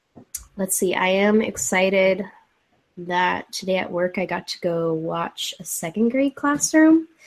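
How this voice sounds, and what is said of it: Congested, slightly stuffy voice. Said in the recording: “I'm a little congested. You might hear it in my voice.”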